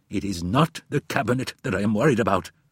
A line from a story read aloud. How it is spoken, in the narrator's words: snapped Goldberg